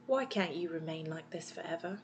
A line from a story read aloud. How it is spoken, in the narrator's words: Miss Darling sighed and whispered